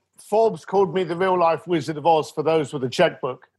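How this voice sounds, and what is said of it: Speaks with a noticeable accent. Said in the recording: “has a better accent than me”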